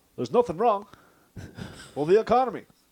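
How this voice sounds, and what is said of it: Barack Obama impression. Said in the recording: “your Barack Obama impression”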